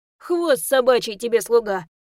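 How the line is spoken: Snapped. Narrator (Russian): огрызнулся Ру

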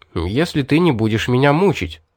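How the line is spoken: Hurried. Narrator (Russian): торопливо добавил

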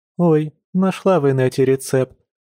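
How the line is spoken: Sighing. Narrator (Russian): вздохнула подруга

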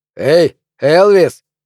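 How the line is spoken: Shout. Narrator (Russian): крикнул кто-то

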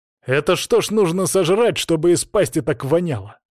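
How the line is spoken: Snapping back. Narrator (Russian): огрызнулся я

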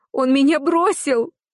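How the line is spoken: Sobbing. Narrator (Russian): Идет она на очередной виток рыданий

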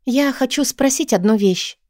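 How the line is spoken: Timid. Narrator (Russian): робко говорю

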